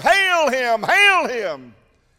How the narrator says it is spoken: they'll holler

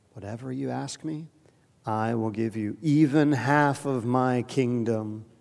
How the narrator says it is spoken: he solemnly swore to her

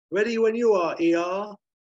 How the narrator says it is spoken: Lucky shouting up to Aykroyd

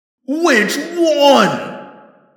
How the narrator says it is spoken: The Helmargron screamed

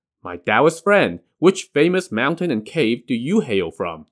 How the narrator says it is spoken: Jiang Ziya asked

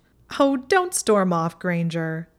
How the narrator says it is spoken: Pansy said, subsiding from her laughter

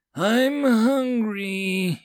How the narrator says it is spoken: he whined at the cook

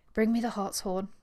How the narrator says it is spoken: begged Miss Thane in failing accents

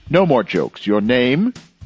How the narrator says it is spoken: Monsieur Filleul looked him straight in the eyes and said sharply

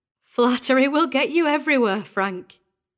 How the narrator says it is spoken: Mary said, laughing

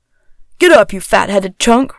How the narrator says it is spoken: roared Harris

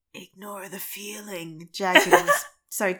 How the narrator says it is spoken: Jagged Fang whispers, so quiet not even Mosspaw can hear him

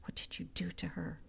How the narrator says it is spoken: Samir whispered

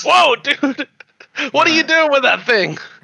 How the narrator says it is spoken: laughing at him

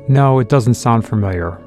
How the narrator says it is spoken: replied

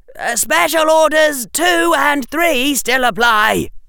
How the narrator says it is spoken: shouted Harry

